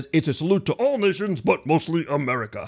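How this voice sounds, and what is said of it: Bad Sam Eagle impression. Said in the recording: “bad Sam Eagle impression”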